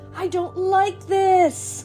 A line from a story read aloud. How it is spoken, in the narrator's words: one of them yelled